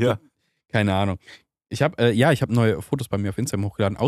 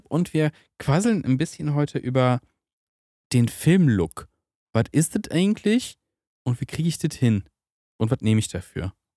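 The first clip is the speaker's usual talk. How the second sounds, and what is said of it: Put-on, imperfect Berlin dialect. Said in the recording (German): “Und warum Berliner ist? Ich weiß es nicht. ... sorry an alle, die wirklich Berlinern können”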